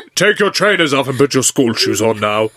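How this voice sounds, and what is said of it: Stern schoolteacher voice. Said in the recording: “teacher voice”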